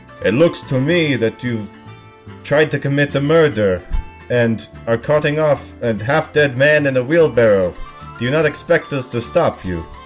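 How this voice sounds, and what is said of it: Heavy put-on fantasy accent. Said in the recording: “in a heavily Avalonian, heavily Vodachin accent”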